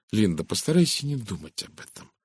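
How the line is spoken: Soft speech. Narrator (Russian): мягко произнесла Розамунд

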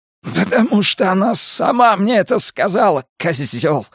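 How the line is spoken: Vicious hiss. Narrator (Russian): злобно прошипел Элиот

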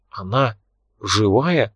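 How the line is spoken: Whisper. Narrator (Russian): прошептал Мик

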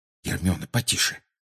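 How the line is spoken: Muttering. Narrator (Russian): пробормотал Гарри

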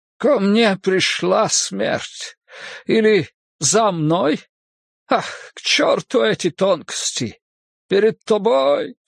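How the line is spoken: Sobbing. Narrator (Russian): всхлипнул он

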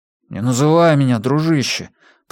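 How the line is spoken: Grumbling. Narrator (Russian): проворчал Свобода

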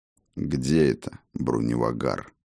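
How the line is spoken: Gloomy question. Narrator (Russian): спросил мрачно у спутника Фроди

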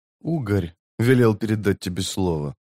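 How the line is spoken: Quiet. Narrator (Russian): тихо произнес тот

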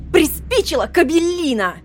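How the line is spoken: Shout in face. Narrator (Russian): закричала она в лицо Роланду

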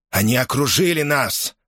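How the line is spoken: Exclaiming. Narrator (Russian): воскликнул Дерк Ундис

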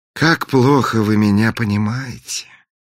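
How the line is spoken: Sighed. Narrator (Russian): вздохнул принц

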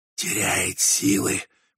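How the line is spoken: Hissed. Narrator (Russian): прошипел англичанин

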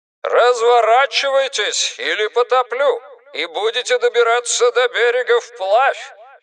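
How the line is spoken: Shouted through megaphone. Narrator (Russian): крикнул в мегафон Кенлис

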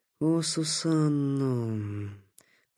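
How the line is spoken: Muttering. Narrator (Russian): пробормотал Такеда

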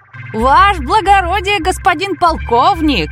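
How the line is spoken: Shouted from a distance. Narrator (Russian): закричал привратник с крыльца

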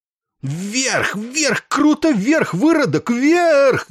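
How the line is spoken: Frantic, hateful screaming. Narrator (Russian): истошно заорал он Макватту, мгновенно проникшись к нему ядовитой ненавистью

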